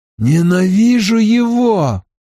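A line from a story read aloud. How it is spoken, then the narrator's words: Hoarse, strained. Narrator (Russian): хрипло выдавил Рэхем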